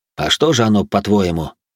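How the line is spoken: Wry snort. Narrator (Russian): хмыкнул я

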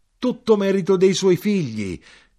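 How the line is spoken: Shouted. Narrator (Italian): gridai

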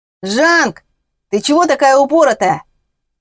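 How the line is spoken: Yelled across the yard. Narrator (Russian): заорал Гришка на весь двор

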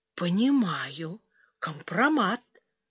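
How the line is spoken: Quiet, hesitant. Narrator (Russian): тихо вымолвила Суглобова

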